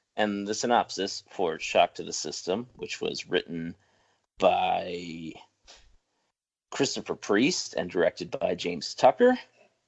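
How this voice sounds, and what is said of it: Announcer voice. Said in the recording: “in your best announcer voice”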